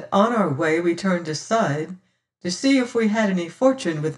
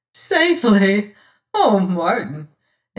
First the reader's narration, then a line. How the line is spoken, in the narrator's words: she laughs, albeit a little tremulously